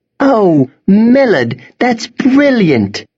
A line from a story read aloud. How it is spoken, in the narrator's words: cried Emma